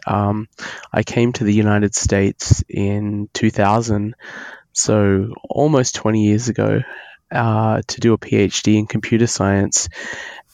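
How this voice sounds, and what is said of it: Australian accent. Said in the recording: “I'm Australian. You can probably hear that in my accent.”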